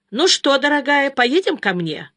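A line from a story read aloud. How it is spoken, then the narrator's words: Cheerful question. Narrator (Russian): спросила она Катю весело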